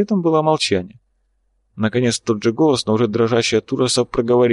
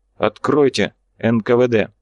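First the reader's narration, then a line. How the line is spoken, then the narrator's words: Loud. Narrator (Russian): громко произнес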